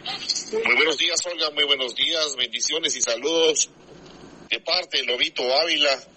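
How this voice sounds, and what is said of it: Radio announcer voice. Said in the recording (Spanish): “Tiene voz de locutor este muchacho, qué bárbaro.”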